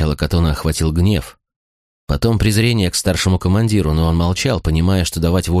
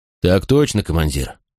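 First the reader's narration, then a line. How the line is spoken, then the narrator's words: Calm reply. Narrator (Russian): спокойно ответил Макрон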